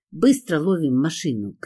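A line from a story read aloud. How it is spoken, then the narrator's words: Shouting. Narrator (Russian): крикнула я Кире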